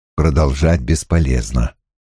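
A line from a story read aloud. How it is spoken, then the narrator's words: Quiet. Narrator (Russian): негромко сказал Страйк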